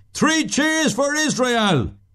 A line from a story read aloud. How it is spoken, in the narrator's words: he bawls out of him